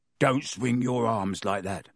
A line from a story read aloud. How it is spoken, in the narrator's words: Harry muttered to Ron